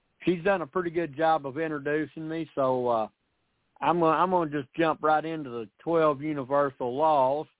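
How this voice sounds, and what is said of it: Speaks with a regional accent. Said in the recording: “I hope y'all can understand my accent.”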